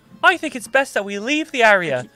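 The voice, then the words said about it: Imitates a little girl's voice. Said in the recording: “As this little girl with her bald head imitating.”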